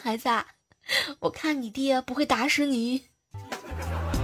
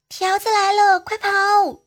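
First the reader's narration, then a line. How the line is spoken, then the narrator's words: Child shouting. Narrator (Chinese): 他五岁的儿子呢就喊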